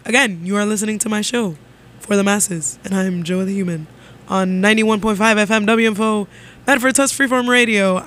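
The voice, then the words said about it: Radio DJ announcer voice. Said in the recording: “bringing out the radio DJ voice”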